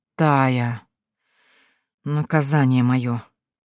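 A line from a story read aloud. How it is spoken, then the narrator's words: Weary. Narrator (Russian): устало закатывает глаза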